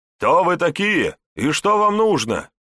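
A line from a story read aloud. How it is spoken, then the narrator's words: Delayed shout from tower. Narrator (Russian): После некоторой задержки крикнули с надвратной башни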